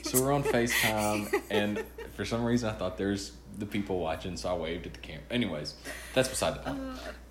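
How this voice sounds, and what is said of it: Arkansas accent. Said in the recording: “From Arkansas. ... If you can't tell from the accent.”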